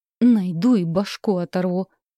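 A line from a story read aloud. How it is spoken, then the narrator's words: Angry spat words. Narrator (Russian): зло выплюнул Орланд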